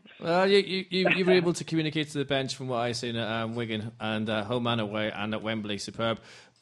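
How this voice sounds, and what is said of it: Scottish accent. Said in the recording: “you hear from my accent that, you know, the Celtic Rangers thing”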